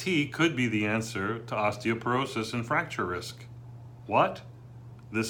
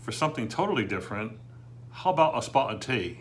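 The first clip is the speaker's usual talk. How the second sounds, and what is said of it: Bad put-on English accent. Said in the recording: “a very bad English accent”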